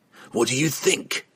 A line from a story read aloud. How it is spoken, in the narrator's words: Entreri snapped back, his snarling tone making the answer seem obvious